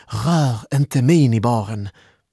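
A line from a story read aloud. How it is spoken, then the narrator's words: Exclaiming. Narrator (Swedish): utbrast Malin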